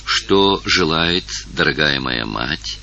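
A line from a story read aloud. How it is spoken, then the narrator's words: Quiet question. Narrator (Russian): тихо спросила Евгения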